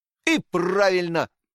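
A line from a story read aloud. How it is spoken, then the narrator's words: Exclamation. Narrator (Russian): воскликнул Фриц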